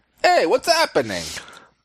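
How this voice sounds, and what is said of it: Put-on Italian accent. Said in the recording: “You should say it with an Italian accent.”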